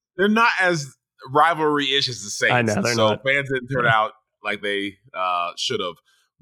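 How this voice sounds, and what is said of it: Strained voice with throat clearing. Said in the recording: “my voice is a little bit, I'm coughing, clearing my throat. I realized I've been yelling for hours on end”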